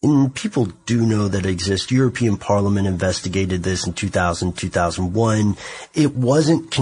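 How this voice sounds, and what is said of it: Usual voice. Nothing is said of it.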